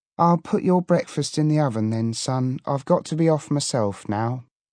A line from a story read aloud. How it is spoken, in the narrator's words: give a sort of sigh and she said